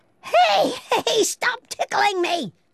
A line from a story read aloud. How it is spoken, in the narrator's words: shrieked Pippi